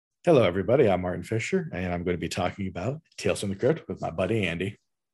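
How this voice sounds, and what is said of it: Polished radio announcer voice. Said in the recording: “This is great radio voice.”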